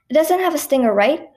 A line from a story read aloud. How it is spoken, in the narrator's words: asked nervously, still not letting go